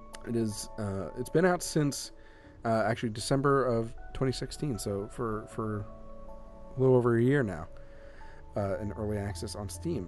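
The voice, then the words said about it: Voice going hoarse. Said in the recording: “I'm losing my voice.”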